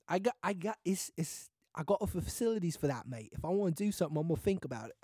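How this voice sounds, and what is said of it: Put-on British accent. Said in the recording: “I just broke out into a British accent.”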